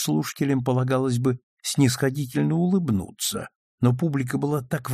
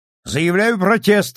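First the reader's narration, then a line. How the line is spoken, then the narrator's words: Shout. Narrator (Russian): крикнул с места Мейсон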